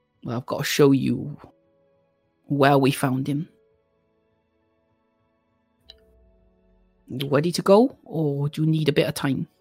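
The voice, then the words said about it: Strong accent, hard to understand. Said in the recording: “That's an accent. ... I'm only understanding about every third word you are saying. Can you be more clearer, please?”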